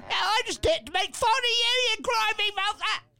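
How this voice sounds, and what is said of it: Put-on English accent. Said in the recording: “that's quite an accent. ... I'm from across the pond. ... You mean England?”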